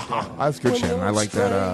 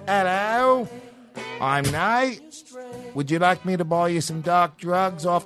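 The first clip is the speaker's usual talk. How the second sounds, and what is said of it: Put-on Australian accent. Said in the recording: “I should be doing my Australian accent”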